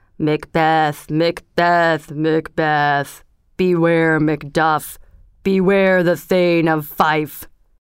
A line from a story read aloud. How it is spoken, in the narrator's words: the head above the cauldron said in a low and miserable voice